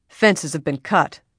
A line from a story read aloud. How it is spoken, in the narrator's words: the ranch foreman barked